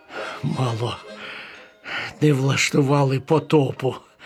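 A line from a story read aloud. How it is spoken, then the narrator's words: Relieved sigh. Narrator (Ukrainian): з полегкістю зітхнув Макс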